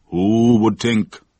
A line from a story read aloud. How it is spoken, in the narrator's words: declared Mother Sally in a booming voice